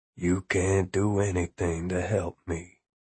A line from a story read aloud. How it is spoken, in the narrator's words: he said in a weak but steady voice